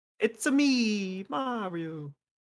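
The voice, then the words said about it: High-pitched Mario character voice. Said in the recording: “my Mario impression... it was so high pitched”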